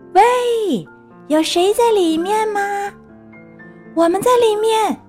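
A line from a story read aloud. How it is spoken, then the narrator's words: Calling down a hole. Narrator (Chinese): 小猪趴在洞口，朝下面喊道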